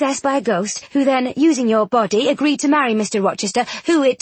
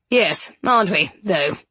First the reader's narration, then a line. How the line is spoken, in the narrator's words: Rochester grumbled